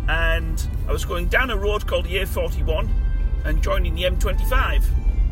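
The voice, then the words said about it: Strong regional accent. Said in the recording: “just in case you can't understand my accent, like”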